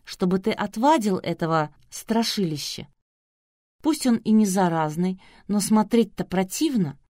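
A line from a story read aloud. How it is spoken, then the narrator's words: Sweet angelic interjection. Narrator (Russian): ангельским голосом встряла Нелли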